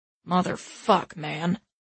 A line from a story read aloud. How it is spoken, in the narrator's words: Marty growls